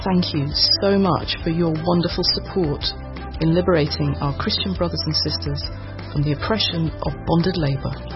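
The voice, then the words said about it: British accent. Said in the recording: “You heard a British accent”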